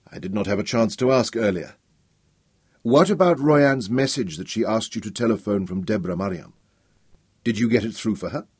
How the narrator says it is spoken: said quickly

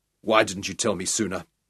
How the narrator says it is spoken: His voice also harsh

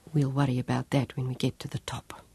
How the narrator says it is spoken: He whispered

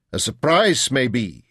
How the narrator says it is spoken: said sternly

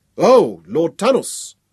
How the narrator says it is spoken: Kratos shouted across to us

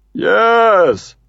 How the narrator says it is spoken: says Uncle Red cheerfully

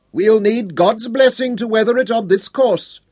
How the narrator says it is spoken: Llewellyn shouted

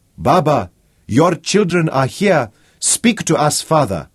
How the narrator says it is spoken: a voice called out

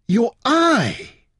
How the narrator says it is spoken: she cried

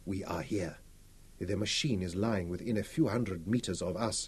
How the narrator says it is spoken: told them quietly

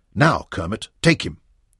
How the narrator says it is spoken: He drew his breath and snapped

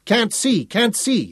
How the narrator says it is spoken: Sally Ann cried

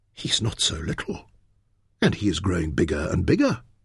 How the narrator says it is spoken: she whispered

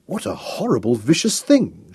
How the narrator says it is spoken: she exclaimed

